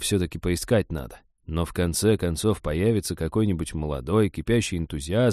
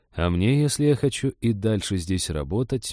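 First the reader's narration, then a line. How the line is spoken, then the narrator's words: Gloomy thought. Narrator (Russian): мрачно подумал Женька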